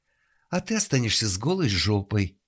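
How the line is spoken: Exclaiming. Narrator (Russian): воскликнула Елена Петровна

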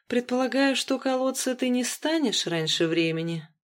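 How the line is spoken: Sighing. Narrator (Russian): вздохнул я

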